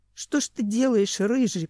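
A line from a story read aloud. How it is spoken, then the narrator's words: Groaning. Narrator (Russian): простонал Семен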